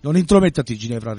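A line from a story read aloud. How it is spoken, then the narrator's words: Threatening tone. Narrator (Italian): replicò Morgana in tono minaccioso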